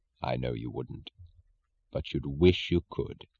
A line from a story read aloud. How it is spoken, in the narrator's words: He said gently